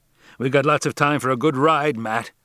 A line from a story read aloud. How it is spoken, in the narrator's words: he cried